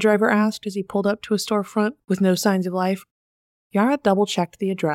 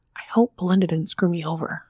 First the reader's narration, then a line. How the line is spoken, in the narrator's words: under her breath